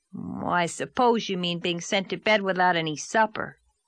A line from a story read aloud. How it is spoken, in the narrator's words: said scornfully